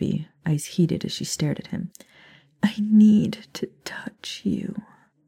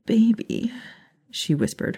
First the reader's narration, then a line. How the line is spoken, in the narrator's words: her tone pleading